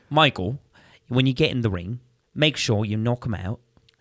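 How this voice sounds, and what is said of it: Imitates another person's voice. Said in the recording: “Michael Caine voice.”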